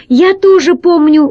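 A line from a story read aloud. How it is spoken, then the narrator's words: Exclamation. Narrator (Russian): воскликнул Пашка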